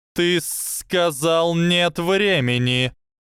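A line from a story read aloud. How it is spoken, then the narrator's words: Hissing reply. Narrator (Russian): раздалось ответное шипение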